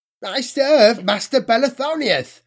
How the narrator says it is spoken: Zygur squeaked

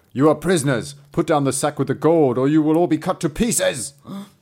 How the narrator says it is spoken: Two regiments called out

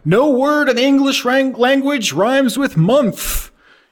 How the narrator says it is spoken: they just shout

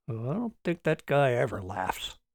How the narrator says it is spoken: muttered Martin

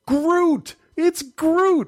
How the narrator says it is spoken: she yelled

